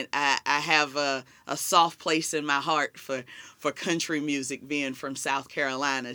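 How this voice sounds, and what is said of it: Southern American accent. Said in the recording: “As everybody hears my southern accent”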